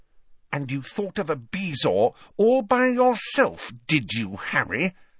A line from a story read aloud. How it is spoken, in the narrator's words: she asked through gritted teeth